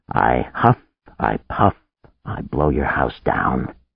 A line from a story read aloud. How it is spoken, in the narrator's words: muttered